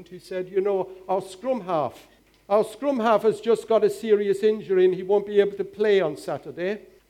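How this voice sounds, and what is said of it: Put-on Welsh accent. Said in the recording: “speaking with a Welsh accent”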